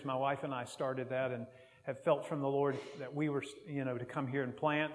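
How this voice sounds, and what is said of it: American accent. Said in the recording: “I get, you know, different comments about Americans, and, you know, I can't help where I'm born and my accent. It just comes out. I'll just never be able to speak like a Glaswegian.”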